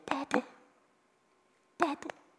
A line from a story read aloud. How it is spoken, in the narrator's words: the Spirit cries out